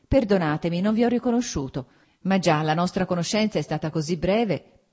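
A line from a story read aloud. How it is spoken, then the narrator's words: Plain. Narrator (Italian): disse Vronsky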